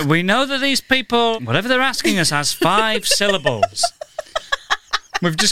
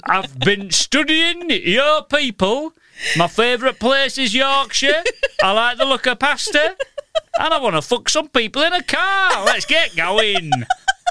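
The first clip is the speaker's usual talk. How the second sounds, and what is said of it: Yorkshire accent. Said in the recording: “Yorkshire accent.”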